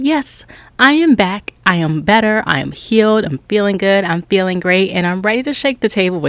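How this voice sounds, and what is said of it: Usual voice. Nothing is said of it.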